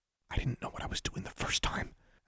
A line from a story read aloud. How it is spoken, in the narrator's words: Alexandra whispered back